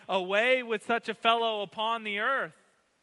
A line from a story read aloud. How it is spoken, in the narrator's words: the mob responds, shouting